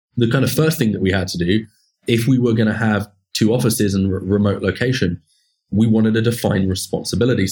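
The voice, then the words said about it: British accent. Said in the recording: “my accent's not based in San Francisco ... my home country of the UK”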